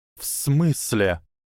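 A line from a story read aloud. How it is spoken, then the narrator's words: Hissed. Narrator (Russian): прошипел Гарри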